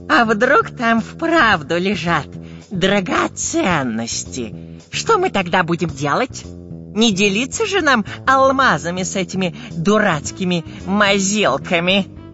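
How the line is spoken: Furtive robber's hiss. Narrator (Russian): Воровато оглядываясь, прошипел длинноносый разбойник

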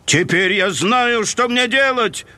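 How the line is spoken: Joyful shout. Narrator (Russian): прокричал Фредди радостно

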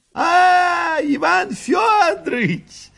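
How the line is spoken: Fat man shouting. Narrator (Russian): закричал толстый Григорий Григорьевич

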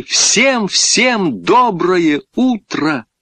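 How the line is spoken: Loud group shout. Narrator (Russian): громко крикнули

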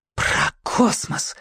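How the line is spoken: Breathless exhale. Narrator (Russian): выдохнула голова

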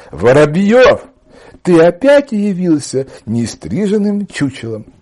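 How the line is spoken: Loud. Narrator (Russian): она громко сказала

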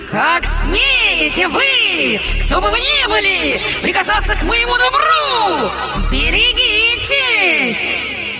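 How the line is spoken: Terrible, harsh, hoarse scream. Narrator (Russian): Она закричала страшным, резким и хриплым голосом

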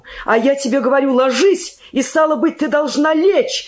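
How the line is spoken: Angry shout. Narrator (Russian): закричал он озлобленно

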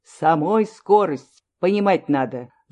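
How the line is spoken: Clipped, commanding. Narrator (Russian): словно отдавал приказ, отчеканил

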